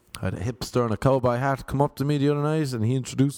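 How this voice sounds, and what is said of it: Irish accent. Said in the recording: “my accent ... Ireland”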